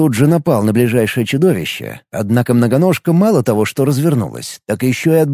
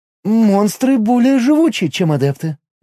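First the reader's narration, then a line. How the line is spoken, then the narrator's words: Uncertain reply. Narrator (Russian): неуверенно ответила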